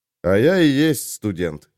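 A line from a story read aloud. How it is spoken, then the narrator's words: Smirking. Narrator (Russian): хмыкнул Олег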